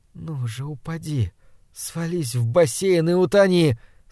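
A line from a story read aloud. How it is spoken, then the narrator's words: Sudden passionate pleading. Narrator (Russian): страстно взмолилась вдруг Тамоко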